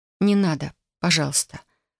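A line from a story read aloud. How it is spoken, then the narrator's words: Mumbled. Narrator (Russian): пробормотала я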